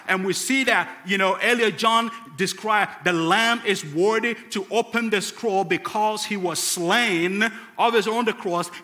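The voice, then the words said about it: Ghanaian West African accent. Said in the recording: “a guy with a funny accent from West Africa in Ghana, northern part of Ghana ... a funny accent, and it's hard to tell where my accent is”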